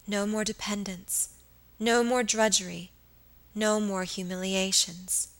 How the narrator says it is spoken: she said

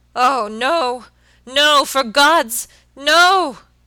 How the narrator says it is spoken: he shrieked hoarsely

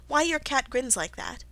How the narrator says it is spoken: said Alice, a little timidly

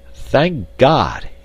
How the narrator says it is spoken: he cried

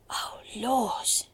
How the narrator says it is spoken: she gasped

